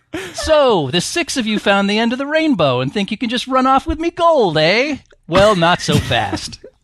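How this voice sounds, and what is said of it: Leprechaun character voice, American accent. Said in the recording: “in character as a leprechaun with an American accent.”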